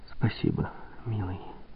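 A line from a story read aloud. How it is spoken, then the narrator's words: Whisper. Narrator (Russian): прошептала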